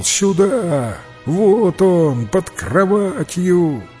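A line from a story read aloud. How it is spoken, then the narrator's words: Exclaimed. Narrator (Russian): кто-то воскликнул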